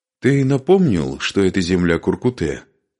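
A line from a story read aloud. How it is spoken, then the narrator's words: Plain question. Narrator (Russian): спросил Игорь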